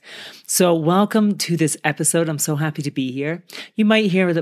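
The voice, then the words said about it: Slightly off, chesty voice. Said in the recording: “my voice is still a little bit funny ... I still sometimes get this chesty thing”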